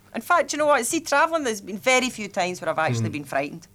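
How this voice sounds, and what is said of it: Glasgow Scottish accent. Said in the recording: “I've got this thing called a Glasgow accent”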